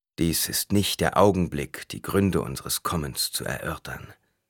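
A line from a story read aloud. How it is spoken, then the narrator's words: Plain. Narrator (German): sagte Stilgar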